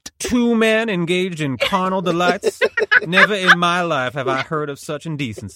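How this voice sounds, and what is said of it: Put-on Southern accent. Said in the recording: “What is this Southern accent”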